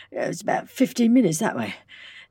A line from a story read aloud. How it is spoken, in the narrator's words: panted the lawman